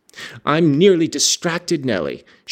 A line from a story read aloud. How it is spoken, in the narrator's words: she exclaimed